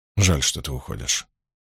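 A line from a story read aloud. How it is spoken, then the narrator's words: Quiet. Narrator (Russian): тихо сказал Ранд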